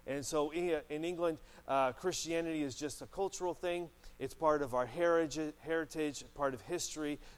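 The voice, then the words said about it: Noticeable accent. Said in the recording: “obviously, they can tell the accent.”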